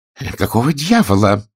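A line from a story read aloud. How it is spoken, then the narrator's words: Irritated exclamation. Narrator (Russian): раздраженно воскликнул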